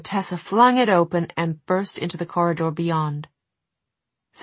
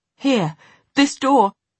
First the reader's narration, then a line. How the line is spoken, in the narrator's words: Sophie gasped